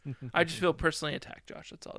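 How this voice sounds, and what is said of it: Sarcastic, mock-offended tone. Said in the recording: “I'm being sarcastic ... I promise I'm being sarcastic.”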